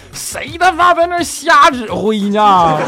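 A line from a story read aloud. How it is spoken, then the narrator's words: Driver yelling forcefully. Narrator (Chinese): 司机呢从驾驶舱里把脑袋伸了出来，使劲冲着这边喊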